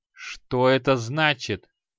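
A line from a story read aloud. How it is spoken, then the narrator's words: Through clenched teeth. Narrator (Russian): процедил маг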